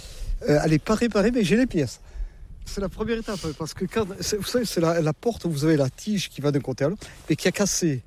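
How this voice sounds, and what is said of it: Southern French accent from Landes. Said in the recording (French): “comme vous l'entendez, je ne suis pas de la région ... Avec mon accent, je ne suis pas du nord de la Loire, non. Je suis des Landes”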